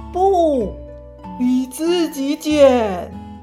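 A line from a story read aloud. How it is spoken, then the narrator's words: Exasperated loud roar. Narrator (Chinese): 大灰狼受不了了，他用力的吸一口气，然后大声的吼出来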